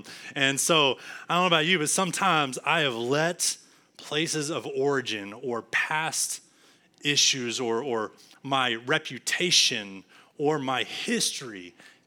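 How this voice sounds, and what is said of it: Texas accent. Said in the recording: “I still had my Texas accent... you hear it when I speak, you know where I'm from”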